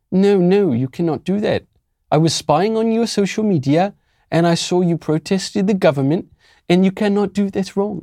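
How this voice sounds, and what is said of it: Mixed East London–South African accent. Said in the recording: “It's like a mixture of East London and South African. ... I'm going to cut it out with this accent. I sound like some just East London soccer hooligan.”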